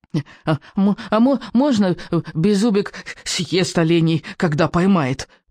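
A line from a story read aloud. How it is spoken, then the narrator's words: Squeaky voice. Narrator (Russian): пропищал Беззубик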